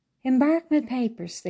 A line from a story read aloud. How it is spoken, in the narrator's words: they all exclaimed